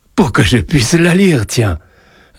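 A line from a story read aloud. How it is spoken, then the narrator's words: Amused reply. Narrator (French): répondit Joseph d'un ton amusé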